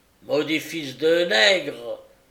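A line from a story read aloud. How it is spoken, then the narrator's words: Yelling angrily. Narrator (French): vociféra Flint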